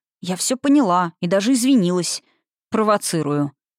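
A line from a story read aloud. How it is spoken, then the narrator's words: Snorting chuckle. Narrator (Russian): хмыкнул Николас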